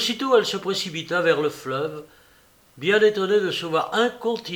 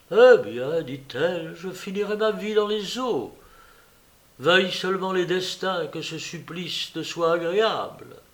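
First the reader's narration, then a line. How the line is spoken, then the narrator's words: With a deep sigh. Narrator (French): tirant de son cœur un profond soupir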